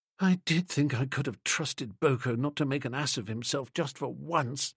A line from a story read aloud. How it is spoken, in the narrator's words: she murmured with a wild regret